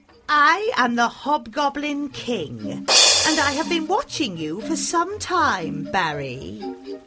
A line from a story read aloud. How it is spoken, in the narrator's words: sneered the creature